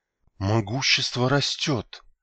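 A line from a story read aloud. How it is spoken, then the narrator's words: Admiring whisper. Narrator (Russian): восхищенно прошептала Ашо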